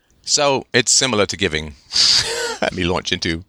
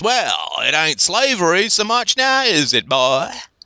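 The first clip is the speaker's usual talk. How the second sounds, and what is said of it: Deliberately bad put-on accent. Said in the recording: “bad accent time again”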